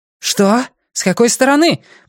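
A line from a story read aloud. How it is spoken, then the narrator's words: Shouted from below. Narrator (Russian): прокричала Герт откуда-то снизу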